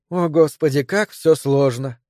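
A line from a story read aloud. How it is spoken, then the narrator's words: Sigh. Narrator (Russian): вздохнула Мэри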